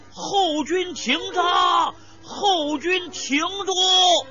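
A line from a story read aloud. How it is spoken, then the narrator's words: Loud shout. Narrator (Chinese): 李典……大声叫道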